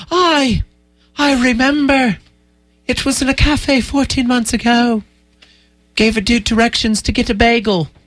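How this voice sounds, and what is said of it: Poor put-on Irish accent. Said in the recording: “That was a terrible Irish accent.”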